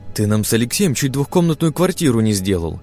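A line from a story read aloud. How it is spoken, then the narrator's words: Exclaiming. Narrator (Russian): воскликнула Светлана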